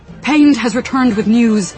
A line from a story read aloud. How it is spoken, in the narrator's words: he said, panting from the short but intense ride